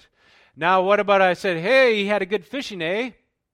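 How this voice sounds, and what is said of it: Put-on Canadian accent. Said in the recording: “Canada ... they always follow with that A”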